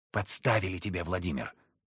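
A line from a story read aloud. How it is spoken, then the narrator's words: Whispered. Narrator (Russian): прошептал Захар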